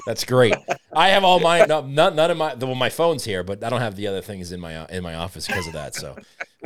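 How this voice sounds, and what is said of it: Boston accent. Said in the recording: “your Boston accent”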